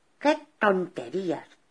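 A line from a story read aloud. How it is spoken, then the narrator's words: Plain. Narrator (Spanish): dijo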